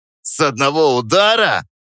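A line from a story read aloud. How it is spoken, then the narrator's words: Laughing snort. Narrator (Russian): фыркнул главарь, вытирая слезы от смеха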